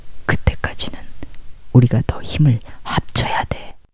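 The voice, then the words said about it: Lowered, whispering voice. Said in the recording (Korean): “마지막 말은 목소리를 낮춰 다른 마귀들이 들을세라 속삭이듯 말을 합니다.”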